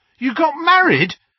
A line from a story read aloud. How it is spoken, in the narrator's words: Harry yelped